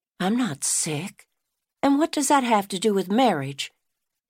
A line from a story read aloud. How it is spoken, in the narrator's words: Stella gasped